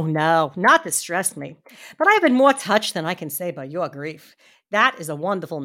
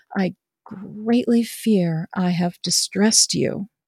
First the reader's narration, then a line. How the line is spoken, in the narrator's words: I said as gently as I could